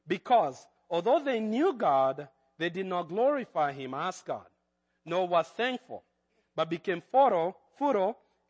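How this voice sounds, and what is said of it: Kenyan accent. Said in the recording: “That's my Kenyan accent.”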